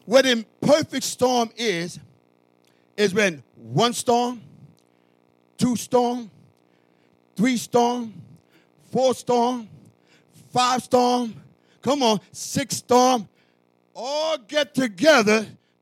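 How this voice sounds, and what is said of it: Strong accent. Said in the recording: “my accent's getting in the way now... someone might think I'm speaking in Spanish”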